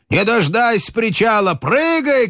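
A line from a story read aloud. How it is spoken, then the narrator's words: Shouting. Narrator (Russian): кричал Хведин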